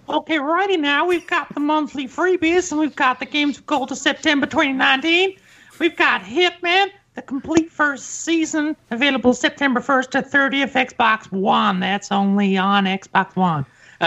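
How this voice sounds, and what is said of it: Impression of another person's voice. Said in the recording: “do your best Kim right now. Do your best Kim impersonation. ... That was perfect. That was perfect.”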